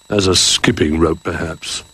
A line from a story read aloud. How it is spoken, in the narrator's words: grumbled Duck